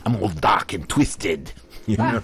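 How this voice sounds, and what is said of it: Put-on Australian accent. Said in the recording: “an Australian accent with a goth personality”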